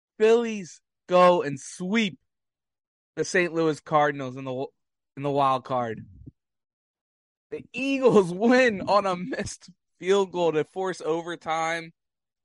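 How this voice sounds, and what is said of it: Hoarse, strained voice. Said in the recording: “I gotta catch my breath. I'm losing my voice from yelling so much.”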